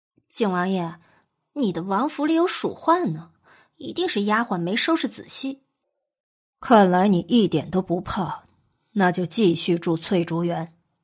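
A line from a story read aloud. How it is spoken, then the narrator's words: Muttering. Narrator (Chinese): 娄玄影朝莫景浩嘀咕道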